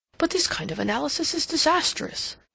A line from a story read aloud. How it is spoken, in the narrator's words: he exclaimed